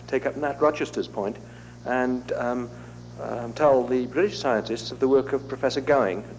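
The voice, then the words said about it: Strong British accent. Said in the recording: “with a strong British accent”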